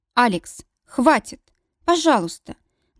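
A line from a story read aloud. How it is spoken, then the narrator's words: Trembling, pleading. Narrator (Russian): Дрожащим голосом умоляю я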